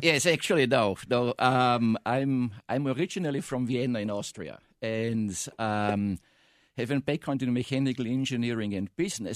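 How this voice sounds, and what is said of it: Non-American foreign accent. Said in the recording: “with your accent, I'm sure you're just from the south side of Chicago”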